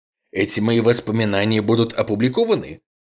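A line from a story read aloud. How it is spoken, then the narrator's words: Sharp question. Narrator (Russian): резко спросил Блейк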